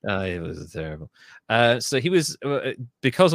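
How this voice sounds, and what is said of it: Usual voice. Nothing is said of it.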